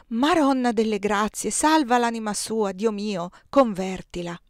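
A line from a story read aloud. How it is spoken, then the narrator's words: Adolescent girls' sighing exclamations. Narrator (Italian): Quelle adolescenti, sospirando, esclamavano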